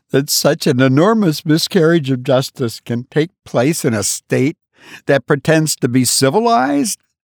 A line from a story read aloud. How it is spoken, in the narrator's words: cried the wife